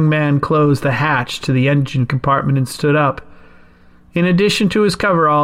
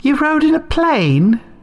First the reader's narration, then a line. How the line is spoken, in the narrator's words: Helen exclaimed, clearly shocked